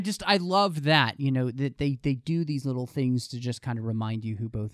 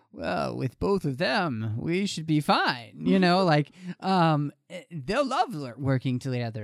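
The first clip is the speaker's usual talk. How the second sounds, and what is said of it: Bad put-on Russian accent. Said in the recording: “that's an awful Russian accent.”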